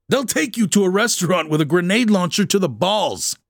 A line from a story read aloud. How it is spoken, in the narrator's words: snapped the chief of staff